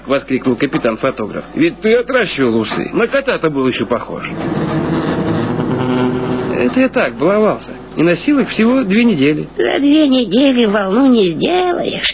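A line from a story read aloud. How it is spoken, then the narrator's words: Plain, old woman. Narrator (Russian): сказала старуха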